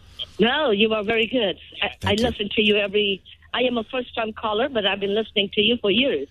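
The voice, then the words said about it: Kenyan-accented English. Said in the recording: “Is your accent South African? I'm trying to place it. ... I am from Nairobi, Kenya.”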